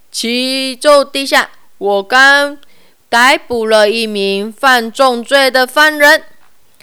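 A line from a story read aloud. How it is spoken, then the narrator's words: Loud formal report. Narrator (Chinese): 士兵大声禀报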